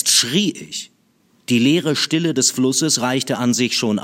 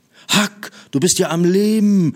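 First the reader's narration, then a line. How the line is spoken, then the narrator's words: Excited. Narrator (German): sagte ich aufgeregt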